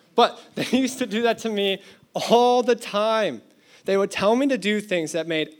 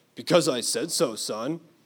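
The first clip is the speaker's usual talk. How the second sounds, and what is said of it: Exaggerated deep dad voice. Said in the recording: “terrible impression. My dad's voice is not that deep.”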